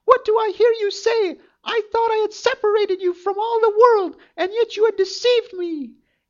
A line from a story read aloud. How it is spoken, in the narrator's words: cried the enchantress